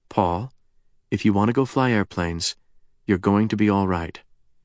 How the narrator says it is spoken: the former Enola Gay haggard added quietly

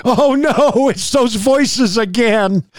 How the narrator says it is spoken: he assumed a fetal position and screamed

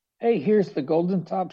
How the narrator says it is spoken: said

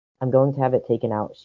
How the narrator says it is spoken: she mutters, not to him

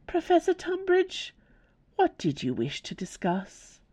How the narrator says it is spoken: she asked in her best, reasonable voice

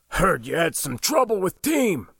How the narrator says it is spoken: grunted

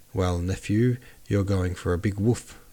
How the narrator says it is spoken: said Uncle

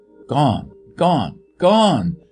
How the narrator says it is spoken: cried a thick, whispering voice somewhere deep within his own consciousness

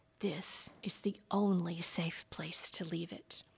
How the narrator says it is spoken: The angel released a long-held breath as he whispered back

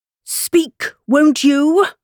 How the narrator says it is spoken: cried the king

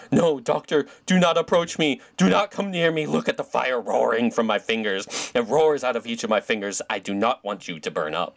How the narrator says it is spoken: she screamed

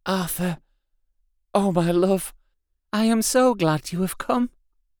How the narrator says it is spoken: seeing him, whispered softly

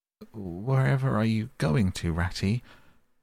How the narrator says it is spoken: cried the tearful Mole, looking up in alarm

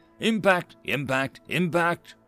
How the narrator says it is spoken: the tactical officer called out

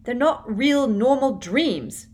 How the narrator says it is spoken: shouted Harry in her face

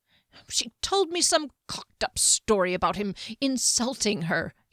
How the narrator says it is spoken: he blurted

